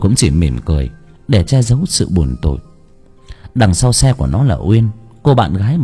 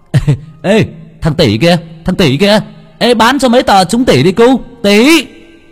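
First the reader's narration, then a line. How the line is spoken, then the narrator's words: Loud shout. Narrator (Vietnamese): nó hét to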